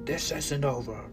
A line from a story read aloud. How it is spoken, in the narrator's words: the devil roared in multiple voices of his demonic lion